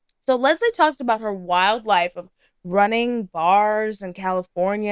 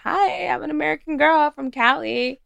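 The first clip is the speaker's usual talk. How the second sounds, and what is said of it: Valley Girl accent. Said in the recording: “Gave him that good Valley Girl accent.”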